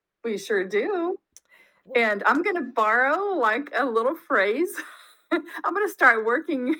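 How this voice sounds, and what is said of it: Usual voice. Nothing is said of it.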